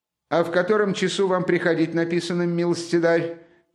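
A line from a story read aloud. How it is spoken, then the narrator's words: Offended shout. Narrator (Russian): крикнул поручик все более и более неизвестно чем оскорбляясь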